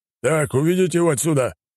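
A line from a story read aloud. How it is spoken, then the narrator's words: Man bellowing. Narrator (Russian): гаркнул мужчина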